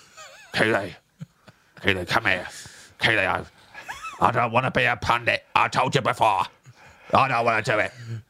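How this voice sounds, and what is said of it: Roy Kent impression, slightly pirate-like. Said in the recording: “in a Roy Kent voice ... get into the Roy Kent thing ... Less pirate.”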